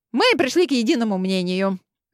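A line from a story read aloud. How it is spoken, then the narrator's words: Cheerful, easing tension. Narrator (Russian): Весело начала ведьма, пытаясь разрядить обстановку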